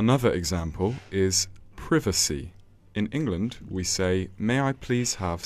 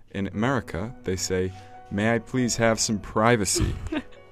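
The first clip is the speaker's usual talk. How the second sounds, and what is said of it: Imitated American accent. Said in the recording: “you imitate their accent”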